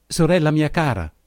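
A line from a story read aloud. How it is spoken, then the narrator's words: Woman exclaiming. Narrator (Italian): esclamò essa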